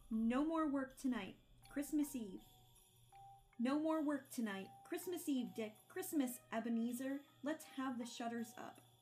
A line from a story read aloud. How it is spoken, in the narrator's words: cried old Fezziwig